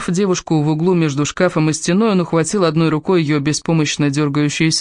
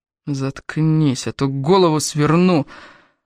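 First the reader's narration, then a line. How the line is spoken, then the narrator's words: Hissed into ear. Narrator (Russian): прошипел Дон прямо ей в ухо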